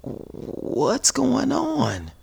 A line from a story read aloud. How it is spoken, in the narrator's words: Miss Monica mumbles